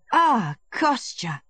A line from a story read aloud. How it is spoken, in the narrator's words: he exclaimed suddenly, recognizing his brother, and his eyes lighted up with joy